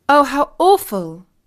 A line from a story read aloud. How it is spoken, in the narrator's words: exclaimed Katie